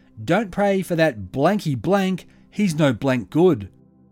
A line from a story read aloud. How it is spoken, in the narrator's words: Lady Munro shouted